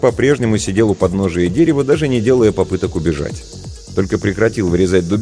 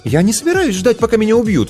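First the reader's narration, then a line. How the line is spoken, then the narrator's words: Exclaiming. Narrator (Russian): воскликнула Снежана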